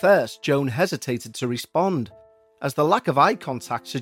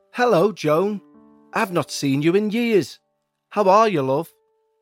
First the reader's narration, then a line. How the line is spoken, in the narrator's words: shouted across to Joan